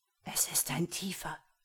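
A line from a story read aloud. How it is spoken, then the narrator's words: Horrified whisper. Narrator (German): flüsterte Joha entsetzt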